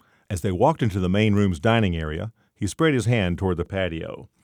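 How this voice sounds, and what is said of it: Usual voice. Nothing is said of it.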